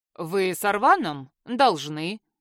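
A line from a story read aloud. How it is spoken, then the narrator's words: Snorting. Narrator (Russian): хмыкнул Эгран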